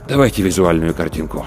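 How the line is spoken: Sighing. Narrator (Russian): Рудольф Терентьевич вздохнул и сказал

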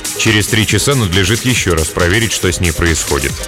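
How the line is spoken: Perfectly calm. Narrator (Russian): сказал он абсолютно спокойно

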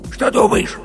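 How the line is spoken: Heated whisper. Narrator (Russian): жарким шепотом спросил медвежонок

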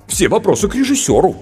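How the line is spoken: Offended. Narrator (Russian): обиженно сказал сценарист

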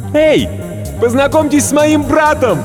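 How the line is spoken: Shouting. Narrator (Russian): крикнула

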